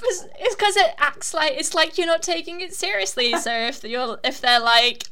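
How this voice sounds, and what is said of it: Usual voice. Nothing is said of it.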